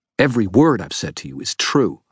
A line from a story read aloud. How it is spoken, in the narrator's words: I snapped